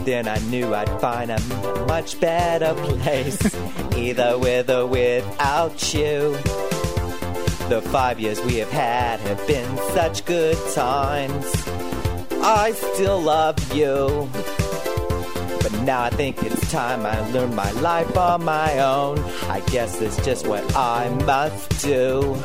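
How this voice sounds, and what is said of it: Exaggerated put-on accent. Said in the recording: “The accent. ... I put a little spin on it. ... Put a whole lot of spin on it. ... spiral into the ground spin on it”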